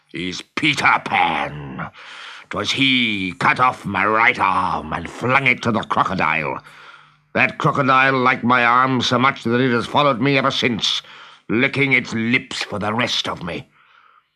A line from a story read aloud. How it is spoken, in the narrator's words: growled Hook